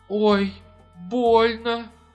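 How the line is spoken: Moaning in pain. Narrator (Russian): застонала она

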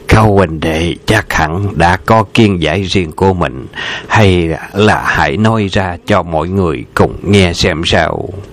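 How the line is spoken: Smiling. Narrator (Vietnamese): mỉm cười nói

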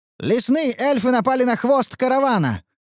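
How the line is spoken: Shout. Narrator (Russian): выкрикнул Ханс

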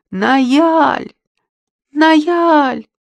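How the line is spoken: Exclamation. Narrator (Russian): воскликнула

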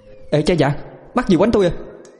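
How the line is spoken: Startled shrill voice. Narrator (Vietnamese): Cô nàng giật mình, cất giọng the thé

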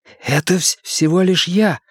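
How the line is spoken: Whisper. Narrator (Russian): прошептал Билл

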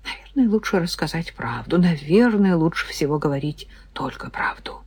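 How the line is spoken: Hoarse frightened mutter. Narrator (Russian): севшим от страха голосом, пробормотала

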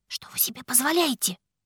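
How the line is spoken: Indignant whisper, forced smile. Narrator (Russian): Шепотом возмутилась я, старательно улыбаясь

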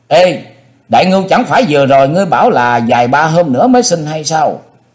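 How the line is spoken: Crowd shouting. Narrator (Vietnamese): Có nhiều người đứng gần đó chỉ tay la lên

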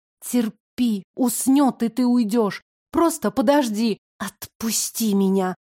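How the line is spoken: Trembling plea. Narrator (Russian): попросила я дрожащим голосом

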